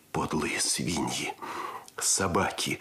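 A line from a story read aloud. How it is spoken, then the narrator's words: Growling. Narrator (Russian): рычал Андрес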